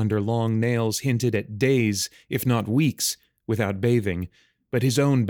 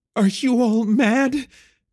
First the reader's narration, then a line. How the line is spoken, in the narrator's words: Emerus croaked out